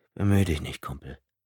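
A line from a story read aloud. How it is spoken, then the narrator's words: Quiet. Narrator (German): meinte Tom leise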